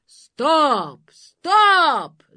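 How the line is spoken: Monster shouting. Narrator (Russian): закричало чудовище

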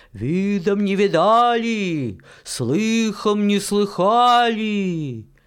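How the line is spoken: Shouting far, old woman. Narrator (Russian): Крикнула старуха по поднебесью

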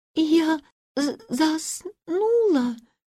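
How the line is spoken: Embarrassed stammering babble. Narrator (Russian): пролепетала она, запинаясь, и очень смущенная

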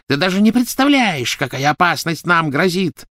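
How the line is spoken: Shrieking. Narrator (Russian): завизжала Белатриса

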